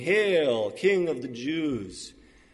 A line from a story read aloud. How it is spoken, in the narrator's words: mocked